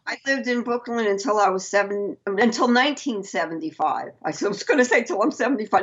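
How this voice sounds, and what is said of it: Brooklyn New York accent. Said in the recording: “I love your accent, by the way, because it just brings me back home. Because my mom and her family are from Brooklyn.”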